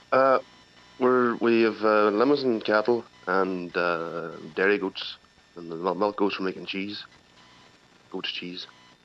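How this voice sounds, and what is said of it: Irish Donegal accent. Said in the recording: “you obviously haven't lost the Donegal accent ... you really haven't lost it”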